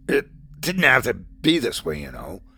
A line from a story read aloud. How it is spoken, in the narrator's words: grunted Alan